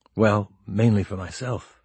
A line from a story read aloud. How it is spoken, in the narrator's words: Tengo said, lowering his voice somewhat